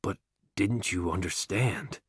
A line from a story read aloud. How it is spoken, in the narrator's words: God speaks slowly and softly, as though to a child or an idiot